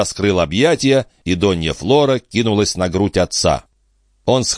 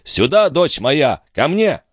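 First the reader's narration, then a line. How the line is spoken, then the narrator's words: Shouted. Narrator (Russian): крикнул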